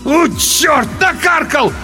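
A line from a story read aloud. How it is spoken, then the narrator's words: Loud howl. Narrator (Russian): В голос взвыл тот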